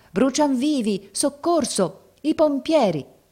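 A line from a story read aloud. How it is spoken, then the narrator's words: Crowd shouting. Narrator (Italian): La folla gridava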